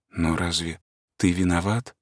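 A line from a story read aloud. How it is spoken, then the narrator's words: Embarrassed whisper. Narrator (Russian): шептала она смущенно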